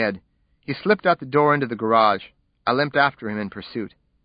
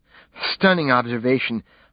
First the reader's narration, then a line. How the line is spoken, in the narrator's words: fumed, panting heavily